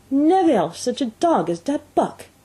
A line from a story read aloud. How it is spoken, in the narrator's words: cried